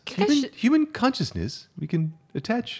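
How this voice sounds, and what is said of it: Professorial accent impression of Walter from Fringe. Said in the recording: “I'm trying to do the English accent by an, or American accent by an Australian, but also kind of a weird professory ... Walter. Main character from Fringe”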